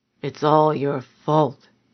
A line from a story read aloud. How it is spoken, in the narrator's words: he mumbled